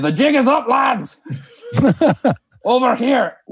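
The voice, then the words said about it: Crude put-on dwarf accent, shouted. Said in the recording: “my crudest impression of a dwarf accent”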